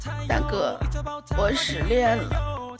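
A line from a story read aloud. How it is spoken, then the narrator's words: Hoarse voice. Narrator (Chinese): 虎哥用沙哑的声音说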